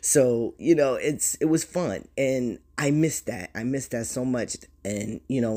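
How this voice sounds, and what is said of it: Usual voice. Nothing is said of it.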